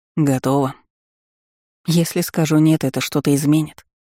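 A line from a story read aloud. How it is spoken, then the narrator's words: Glum reply. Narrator (Russian): уныло отозвалась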